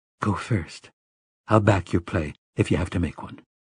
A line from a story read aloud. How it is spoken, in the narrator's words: spoke in a whisper